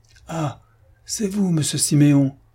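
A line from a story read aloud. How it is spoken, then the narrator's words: Exclaiming. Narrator (French): s'écria le concierge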